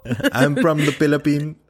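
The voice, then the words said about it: Exaggerated put-on Filipino accent. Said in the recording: “my super offensive Filipino accent”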